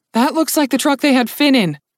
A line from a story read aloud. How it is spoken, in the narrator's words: Dunyasha said loudly